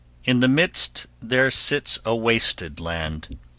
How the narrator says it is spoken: said

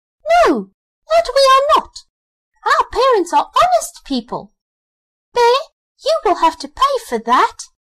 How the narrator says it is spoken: the young wrens heard that, they were frightfully angry and screamed

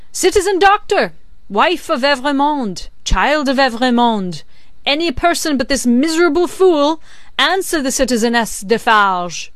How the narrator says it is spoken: raised her voice and called out

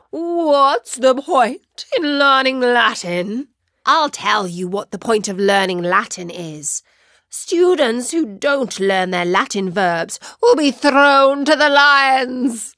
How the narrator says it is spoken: Felix, who really did not like Samantha at the best of times, positively roared back

